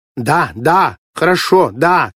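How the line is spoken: Shouting into phone, repeating. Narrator (Russian): кричала она в телефонную трубку и без конца повторяла

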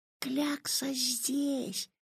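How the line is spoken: Whisper. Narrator (Russian): прошептал Ваня

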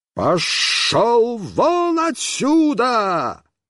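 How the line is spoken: Terrifying yell. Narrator (Russian): я заорал страшным голосом

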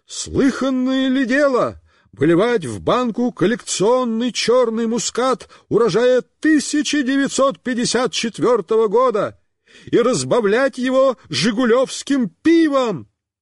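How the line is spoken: Shouting. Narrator (Russian): Он кричал

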